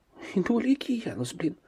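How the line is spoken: Woman whispering. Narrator (Russian): прошептал кто-то из женщин

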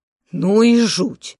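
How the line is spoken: Men exhaling in unison. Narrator (Russian): выдохнули мои мужчины в один голос после 3-минутного молчания

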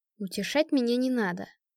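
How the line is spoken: Muffled grumbling into pillow. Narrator (Russian): пробурчала я, продолжая утыкаться головой в подушку

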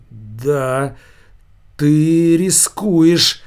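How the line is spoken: Strained, forced out. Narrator (Russian): выдавил из себя Булавка

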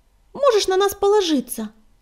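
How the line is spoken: Tiny squeak. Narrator (Russian): пискнула тростинка

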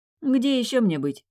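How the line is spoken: Snorting. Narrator (Russian): фыркнув

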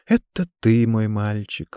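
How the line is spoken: Strained tenderness. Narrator (Russian): ласково, насколько это было в ее силах, произнесла СИС

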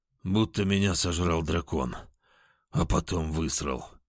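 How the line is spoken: Groaning. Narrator (Russian): простонал я

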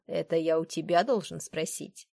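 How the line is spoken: Mocking. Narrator (Russian): насмешливо ответил Уильям

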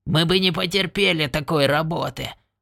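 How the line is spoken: Grumbling. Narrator (Russian): проворчал он

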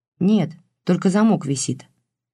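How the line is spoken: Quiet reply. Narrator (Russian): тихо ответил тот

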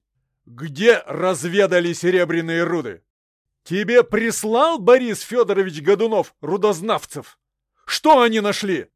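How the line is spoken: Shouting. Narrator (Russian): кричал я

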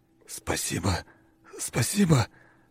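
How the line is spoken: Strained whisper. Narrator (Russian): прошептал он, с трудом выговаривая слова

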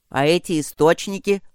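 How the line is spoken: Grumbling. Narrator (Russian): продолжил ворчать Гроул

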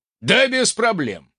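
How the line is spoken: Snorting. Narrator (Russian): хмыкнул

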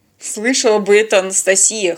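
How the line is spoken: Wry snort. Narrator (Russian): хмыкнул Теодор

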